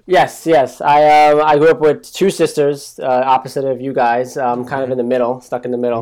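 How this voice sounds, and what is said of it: Noticeable regional accent. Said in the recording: “I hear your accent.”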